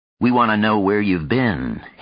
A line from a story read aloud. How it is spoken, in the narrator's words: Houston said evenly